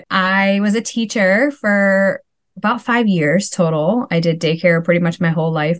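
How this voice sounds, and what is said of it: Wisconsin accent. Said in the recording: “we live in Wisconsin if, I don't know if you hear my accent, a lot of people say it ... just the way you say it”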